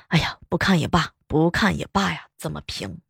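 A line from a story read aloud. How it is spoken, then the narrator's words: Muttering. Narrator (Chinese): 保安嘴里边还一边嘀咕着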